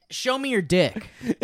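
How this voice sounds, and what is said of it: Imitates another person's voice. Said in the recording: “Here's my other Lee impression.”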